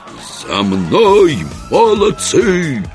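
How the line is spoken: Siren-like howl. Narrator (Russian): Пароходной сиреной взвыл Еремеев

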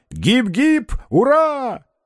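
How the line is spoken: Shouting. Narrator (Russian): закричал Остап

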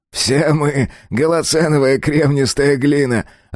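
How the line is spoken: Laughing. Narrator (Russian): рассмеялся Годвин

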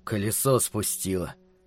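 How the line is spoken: Grumble. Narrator (Russian): проворчал Питер

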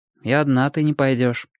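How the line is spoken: Even steady tone. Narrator (Russian): сказал Костик все тем же ровным тоном

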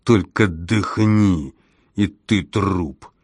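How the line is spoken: Growl. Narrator (Russian): прорычал я

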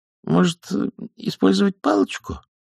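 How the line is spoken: Uncertain question. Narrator (Russian): неуверенно поинтересовалась Маград

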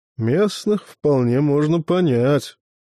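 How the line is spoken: Gruff, reasoned mutter. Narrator (Russian): буркнул рассудительный маэстро Карл

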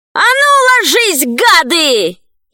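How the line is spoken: Shouting. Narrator (Russian): закричала

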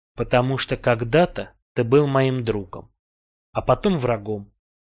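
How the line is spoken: Plain. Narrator (Russian): ответил я

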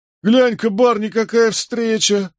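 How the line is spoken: Laughing loudly. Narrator (Russian): расхохотался Джеральд

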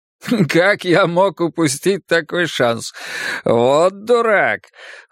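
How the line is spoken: Giggling. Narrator (Russian): хихикал

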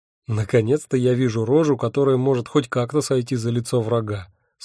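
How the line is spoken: Plain. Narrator (Russian): сказал я Джину

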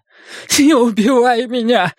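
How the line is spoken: Breathless. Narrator (Russian): выдохнул Оскар

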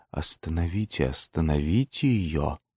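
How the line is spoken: Barely audible call. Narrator (Russian): она позвала еле слышным голосом

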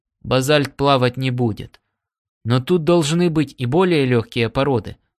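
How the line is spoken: Plain. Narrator (Russian): сказал он

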